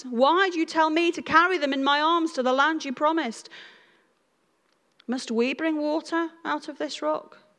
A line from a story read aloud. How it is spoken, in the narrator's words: Moses goes to God and cries